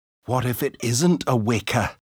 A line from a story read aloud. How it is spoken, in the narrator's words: asked Manu nervously